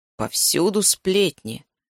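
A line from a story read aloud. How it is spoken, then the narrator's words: Grumbled. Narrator (Russian): проворчал Макс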